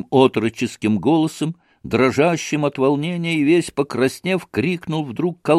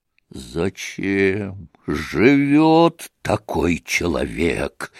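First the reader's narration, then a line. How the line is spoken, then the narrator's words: Muffled furious growl. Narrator (Russian): глухо прорычал Дмитрий Федорович, почти уже в выступлении от гнева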